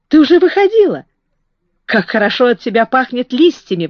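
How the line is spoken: Exclaiming. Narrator (Russian): воскликнул он

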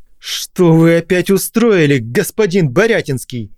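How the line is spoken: Yelling. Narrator (Russian): заорал он

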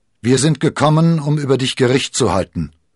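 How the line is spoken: Called out. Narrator (German): rief Athos

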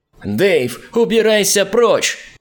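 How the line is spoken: Frantic scream from street. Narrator (Russian): Истошно заорал кто-то на улице

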